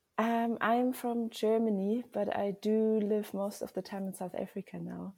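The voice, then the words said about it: Mixed German and South African accent. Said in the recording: “You have a beautiful accent ... It does sound like a bit of a mixture”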